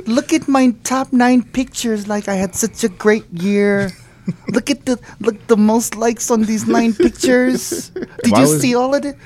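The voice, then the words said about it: Filipino grandma accent. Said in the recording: “Why do I sound like a Filipino grandma?”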